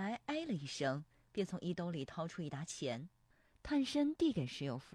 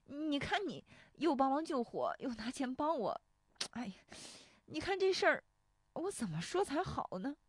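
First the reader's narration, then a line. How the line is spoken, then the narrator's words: Choking up. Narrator (Chinese): 石有福说着又要哽咽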